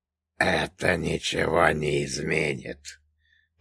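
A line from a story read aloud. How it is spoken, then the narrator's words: Hissed. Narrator (Russian): прошипел Раф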